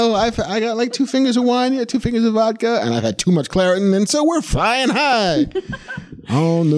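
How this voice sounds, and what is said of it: Usual voice. Nothing is said of it.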